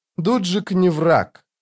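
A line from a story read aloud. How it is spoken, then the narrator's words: Tired female voice. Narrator (Russian): устало сказала она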